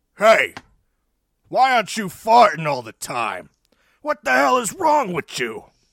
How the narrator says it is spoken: He shouts

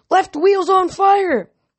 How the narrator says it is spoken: Jason yelled

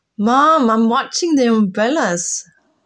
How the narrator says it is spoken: Isla answers, shouting to reach the other room

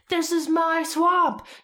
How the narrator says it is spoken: He screamed

